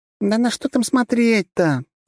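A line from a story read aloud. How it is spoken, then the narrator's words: Exasperated groan. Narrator (Russian): простонала Трасси, в очередной раз сокрушаясь по поводу его непроходимой тупости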